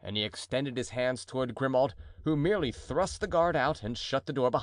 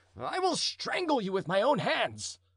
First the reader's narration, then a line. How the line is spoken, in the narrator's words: cried the duke, more and more enraged